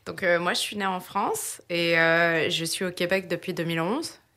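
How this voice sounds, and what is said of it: French accent, not Québécois. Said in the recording (French): “De par ton accent, tu n'es pas nécessairement native de Québec.”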